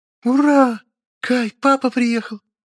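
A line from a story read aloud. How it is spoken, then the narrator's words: Joyful squeal. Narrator (Russian): Радостно взвизгнула моя возлюбленная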